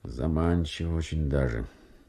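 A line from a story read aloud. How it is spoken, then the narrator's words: Musing to himself. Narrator (Russian): Подкорытов вздохнул, произнес как бы про себя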